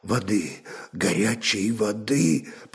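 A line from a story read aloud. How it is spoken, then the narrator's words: Hoarse rasp. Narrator (Russian): прохрипело существо, и голос его опять показался знакомым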